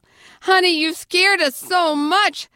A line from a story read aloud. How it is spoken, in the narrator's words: they cried